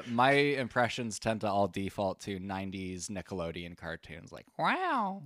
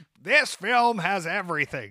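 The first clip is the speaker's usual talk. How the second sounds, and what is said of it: Huckstery impression of another voice. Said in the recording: “do an impression of Effie doing an impression of David Lynch ... Yours gets a little more huckstery.”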